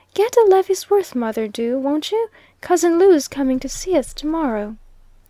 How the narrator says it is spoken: the child spoke up in an earnest voice, and said

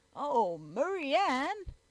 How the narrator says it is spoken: exclaimed Mr

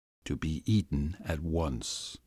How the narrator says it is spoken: he said to my brother in a low voice

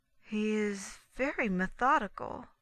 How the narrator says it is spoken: she added slowly

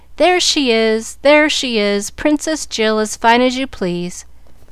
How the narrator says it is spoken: singing, as they laughed at her astonishment

